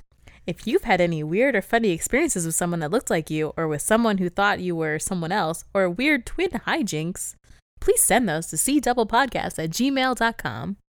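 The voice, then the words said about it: Advertisement announcer voice. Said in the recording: “I put on a little ad voice.”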